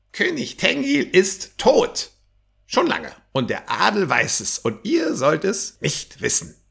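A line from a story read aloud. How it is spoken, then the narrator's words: Croaking, slightly too loud. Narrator (German): krächzte etwas zu laut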